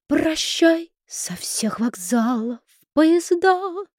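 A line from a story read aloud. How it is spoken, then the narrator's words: Beautiful singing. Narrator (Russian): запела Перельман красивым голосом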